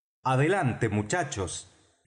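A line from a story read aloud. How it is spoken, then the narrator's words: Doctor shouting. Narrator (Spanish): gritó el doctor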